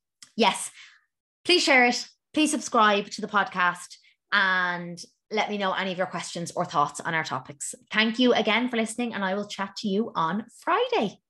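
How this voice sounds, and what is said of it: Irish accent. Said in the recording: “my beautiful Irish voice ... my voice is awful and I hate it”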